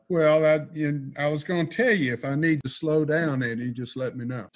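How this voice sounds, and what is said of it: Strong Florida Southern accent. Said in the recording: “That's a hell of an accent you've got. ... Does God have a Florida accent?”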